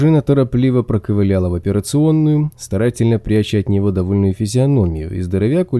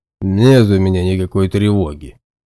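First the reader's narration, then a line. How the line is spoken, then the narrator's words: Big man's grunt. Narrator (Russian): хмыкнул здоровяк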